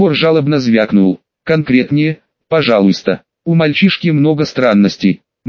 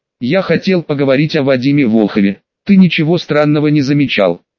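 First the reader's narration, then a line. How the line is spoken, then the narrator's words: Smirking. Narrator (Russian): усмехнулся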